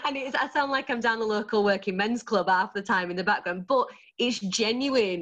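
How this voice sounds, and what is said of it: Thick Yorkshire accent. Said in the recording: “quite a thick Yorkshire accent”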